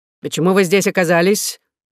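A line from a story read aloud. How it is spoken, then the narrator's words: Stern old man asking. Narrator (Russian): грозно спросил дедушка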